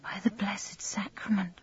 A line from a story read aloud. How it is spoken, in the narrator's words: she murmured